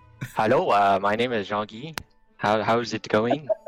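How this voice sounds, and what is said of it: Put-on French accent. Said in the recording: “I see you have a French accent.”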